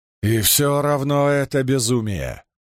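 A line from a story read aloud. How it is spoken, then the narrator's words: Grumble. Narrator (Russian): проворчал Домон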